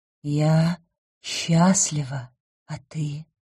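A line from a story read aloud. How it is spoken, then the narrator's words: Relieved breathless exhale. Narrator (Russian): выдохнул так, будто конец света отменился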